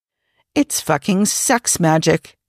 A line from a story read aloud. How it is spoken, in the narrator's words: Jim muttered to himself